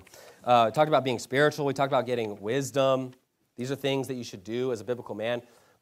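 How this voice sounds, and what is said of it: Strained, hoarse voice. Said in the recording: “I'm losing my voice here.”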